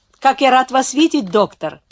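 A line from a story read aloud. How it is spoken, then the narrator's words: Shouting while running up. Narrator (Russian): закричал тот, подбегая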